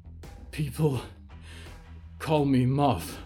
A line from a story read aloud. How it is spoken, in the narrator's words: gasped